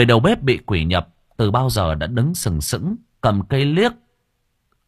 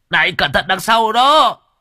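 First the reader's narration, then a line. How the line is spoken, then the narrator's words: Sudden shout. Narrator (Vietnamese): Đột nhiên thằng Sò hét lên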